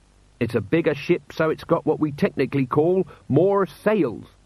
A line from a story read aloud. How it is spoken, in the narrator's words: said Jenkins